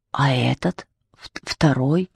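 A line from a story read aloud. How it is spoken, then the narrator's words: Demon whispering question. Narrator (Russian): шепотом спросил шайтан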